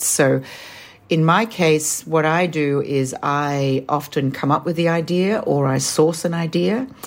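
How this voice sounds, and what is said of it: Australian accent. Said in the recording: “as you can tell from my accent, I'm Australian”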